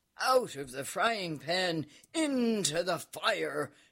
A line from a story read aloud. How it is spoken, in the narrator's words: shouted the Count, burning himself badly